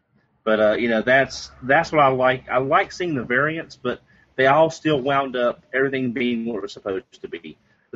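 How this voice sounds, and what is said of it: Strong Southern US accent. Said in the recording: “I'm from the South. ... I have a strong accent.”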